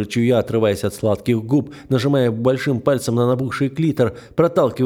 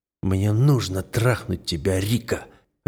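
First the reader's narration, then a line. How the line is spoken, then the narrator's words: Desperate muttering. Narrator (Russian): Отчаянно бормочу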